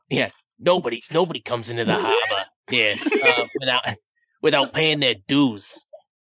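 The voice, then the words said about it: Menacing spiny dogfish character voice. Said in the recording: “do a spiny dogfish voice.”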